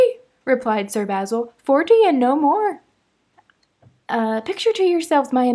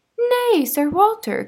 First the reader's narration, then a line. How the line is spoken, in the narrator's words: cried Mrs